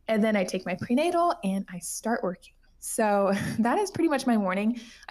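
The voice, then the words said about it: Out of breath, breathless speech. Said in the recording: “Can you tell I'm so out of breath? ... I need to like take a second and breathe.”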